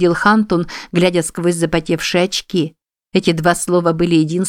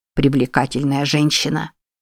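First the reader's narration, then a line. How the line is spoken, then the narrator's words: Mumble. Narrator (Russian): пробормотал Бенджамин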